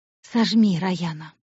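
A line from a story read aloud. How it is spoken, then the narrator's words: Hoarse command. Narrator (Russian): хрипло приказал он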